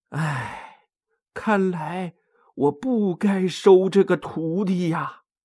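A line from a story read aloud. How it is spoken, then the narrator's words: Sighing. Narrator (Chinese): 唐僧叹了口气说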